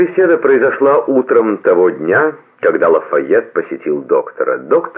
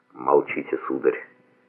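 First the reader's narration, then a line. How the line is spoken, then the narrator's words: Quiet but commanding. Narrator (Russian): сказал Франклин негромко, но так, что тот замолчал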